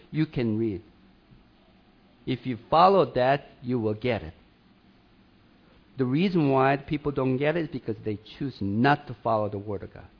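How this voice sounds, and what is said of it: Foreign accent, broken English. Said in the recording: “my accent ... my broken English”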